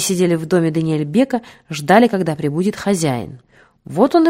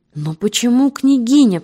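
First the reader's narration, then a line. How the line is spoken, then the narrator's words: Moaning. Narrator (Russian): простонала Полина Андреевна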